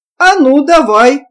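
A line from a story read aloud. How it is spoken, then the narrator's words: Excited exclamation. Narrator (Russian): воскликнул Беденко, в котором вдруг вспыхнул азарт разведчика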